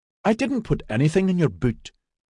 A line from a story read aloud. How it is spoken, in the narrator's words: Maxon protested in a reasonable voice